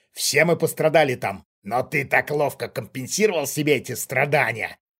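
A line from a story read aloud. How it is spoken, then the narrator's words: Malicious smirking stranger. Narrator (Russian): зло ухмыльнулся чужак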